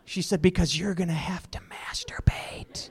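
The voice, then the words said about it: Whispered quoted line. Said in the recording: “why are you whispering? ... that doesn't explain why you're whispering.”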